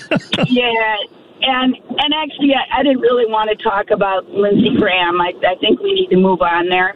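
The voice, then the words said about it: Sick, cold-affected voice. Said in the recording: “Excuse my voice. I've got a bad cold.”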